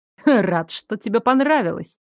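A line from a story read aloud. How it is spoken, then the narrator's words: Amused snort. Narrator (Russian): хмыкнул его величество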